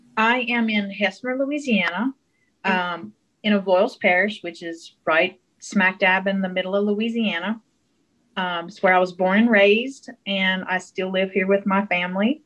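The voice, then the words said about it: Mild South Louisiana Cajun accent. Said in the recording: “you can probably tell from her accent that is kind of South Louisiana, kind of Cajun country... I don't think of myself as having a really thick accent”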